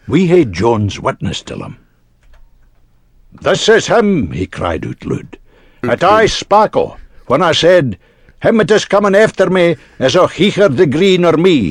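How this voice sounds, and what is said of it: Put-on Scottish brogue. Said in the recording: “brogue... Come on, I had some good Scottish brogue.”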